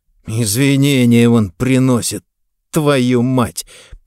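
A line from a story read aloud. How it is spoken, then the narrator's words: Through gritted teeth. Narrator (Russian): процедил мент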